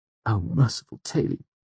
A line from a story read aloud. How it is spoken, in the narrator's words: Simon muttered behind me